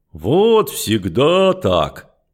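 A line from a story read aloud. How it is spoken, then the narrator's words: Deep bass voice. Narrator (Russian): пробасил невесть откуда взявшийся Брун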